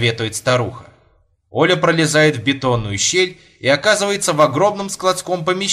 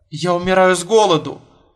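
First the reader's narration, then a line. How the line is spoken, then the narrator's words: Sobbing. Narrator (Russian): рыдает Оля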